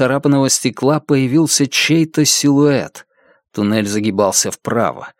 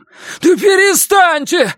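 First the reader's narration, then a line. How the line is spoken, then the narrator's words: Shouting young man. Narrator (Russian): закричал молодой человек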